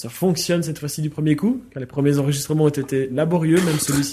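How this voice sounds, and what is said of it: Belgian French accent. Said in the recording (French): “l'accent belge ... L'accent namurois des deux, là.”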